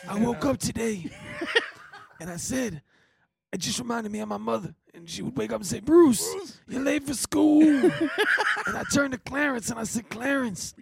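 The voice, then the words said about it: Raspy imitation of another person's voice. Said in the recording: “your Bruce impression ... Just some rasp. ... That's my Bruce Springsteen,”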